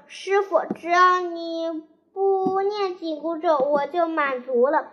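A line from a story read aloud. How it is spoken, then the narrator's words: Laughing. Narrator (Chinese): 悟空笑着说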